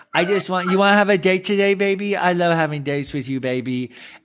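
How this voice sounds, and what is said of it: Cooing baby voice. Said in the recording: “does that baby voice”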